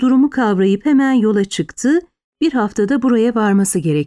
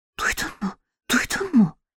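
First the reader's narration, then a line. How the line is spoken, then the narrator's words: Girl whispering. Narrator (Turkish): diye fısıldadı kız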